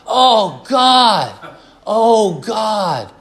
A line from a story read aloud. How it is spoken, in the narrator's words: he just yelled out